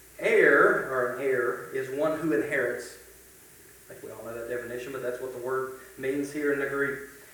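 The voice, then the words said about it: Strong regional accent. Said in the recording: “my accent's killing you. It's not errors, it's heirs, as best as I can say it.”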